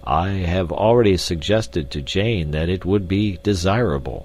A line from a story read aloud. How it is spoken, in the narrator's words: said Professor Porter, sadly